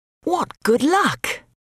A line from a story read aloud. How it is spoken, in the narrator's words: all the neighbours cried